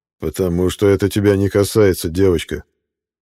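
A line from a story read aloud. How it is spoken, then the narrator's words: Growled. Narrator (Russian): прорычал Джейн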